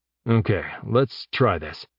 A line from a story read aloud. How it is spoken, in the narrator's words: Jeb muttered